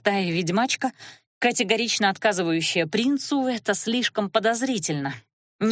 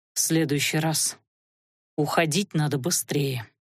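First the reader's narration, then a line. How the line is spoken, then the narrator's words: Breathless exhale. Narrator (Russian): выдохнул Леорн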